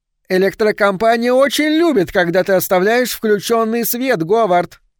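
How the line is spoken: Shouted over shoulder. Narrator (Russian): крикнула она через плечо

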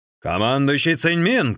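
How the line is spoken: Shout. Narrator (Russian): крикнул Линчун

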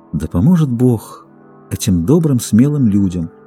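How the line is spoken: Tender sighing speech. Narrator (Russian): Она вздохнула, нежно промолвила

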